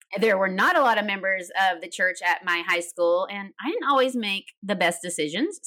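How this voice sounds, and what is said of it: Slight Tennessee Southern accent. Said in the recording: “I grew up in Tennessee. You might hear a little bit of accent.”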